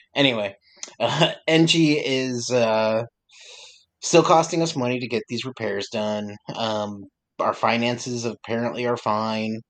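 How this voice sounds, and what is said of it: Strained, failing voice. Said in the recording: “I don't know what's going on with my voice right now. I feel like I'm losing my voice.”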